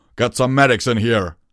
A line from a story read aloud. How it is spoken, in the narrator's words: Torado roared